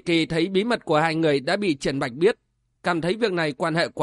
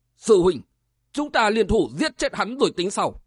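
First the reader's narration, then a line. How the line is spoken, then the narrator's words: Loud trembling shout. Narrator (Vietnamese): quát lớn, giọng run run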